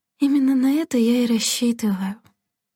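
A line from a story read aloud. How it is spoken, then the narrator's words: Sighing. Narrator (Russian): вздохнула Делла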